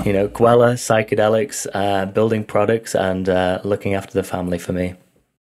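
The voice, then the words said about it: Accented English speech. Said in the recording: “that beautiful accent”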